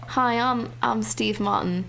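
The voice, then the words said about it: Put-on British accent. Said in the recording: “why did you give him a British accent?”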